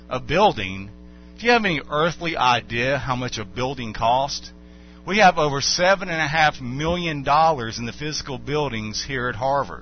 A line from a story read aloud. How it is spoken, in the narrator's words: exclaimed